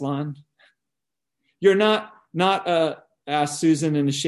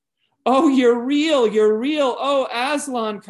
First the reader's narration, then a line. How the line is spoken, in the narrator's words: cried Lucy